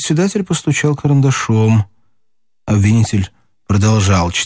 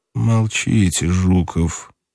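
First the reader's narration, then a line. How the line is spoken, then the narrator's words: Through gritted teeth. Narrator (Russian): сказал Иван Ильич сквозь зубы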